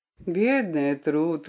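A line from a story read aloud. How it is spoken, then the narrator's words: Tender. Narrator (Russian): ласково сказал он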